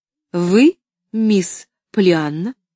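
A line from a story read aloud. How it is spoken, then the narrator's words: Plain. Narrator (Russian): спросила она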